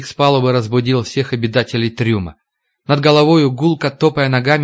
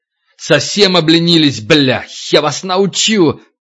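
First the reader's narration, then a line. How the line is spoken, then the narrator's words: Frenzied yelling. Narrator (Russian): Егоров орал, как ненормальный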